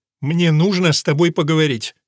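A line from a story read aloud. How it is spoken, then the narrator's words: Sharp, curt. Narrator (Russian): резко бросает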